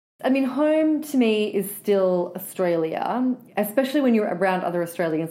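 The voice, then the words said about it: Australian accent. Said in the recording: “accent, her slang, still reverberates within her”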